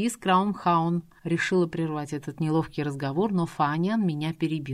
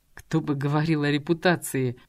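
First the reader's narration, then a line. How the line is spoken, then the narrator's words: Through gritted teeth. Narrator (Russian): процедил сквозь зубы Джонатан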